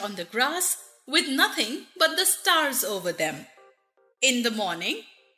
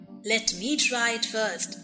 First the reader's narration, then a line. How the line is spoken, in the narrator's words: said the Scarecrow